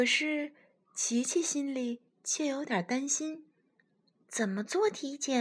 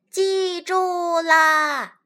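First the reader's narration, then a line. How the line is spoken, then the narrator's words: Group answering loudly. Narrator (Chinese): 大家大声回答道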